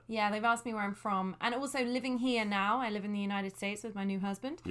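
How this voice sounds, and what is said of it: London accent with American tinge. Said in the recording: “I have what some people determine as a strange accent ... I apparently sound American to everybody back home”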